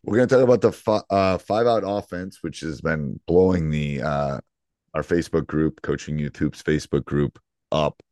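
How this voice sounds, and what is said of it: Hoarse, worn-out voice. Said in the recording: “My voice is shot ... my voice kind of goes during basketball season”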